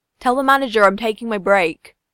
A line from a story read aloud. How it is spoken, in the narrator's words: shouting back to Sugihara